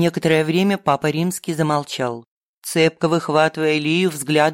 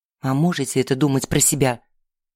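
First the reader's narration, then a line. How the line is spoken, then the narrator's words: Through gritted teeth. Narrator (Russian): сквозь зубы процедила Настя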